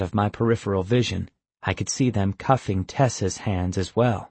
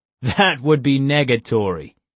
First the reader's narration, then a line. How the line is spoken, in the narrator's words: he laughed